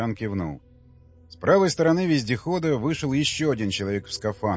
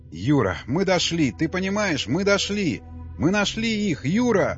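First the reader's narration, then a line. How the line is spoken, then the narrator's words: Joyful yelling. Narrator (Russian): радостно вопил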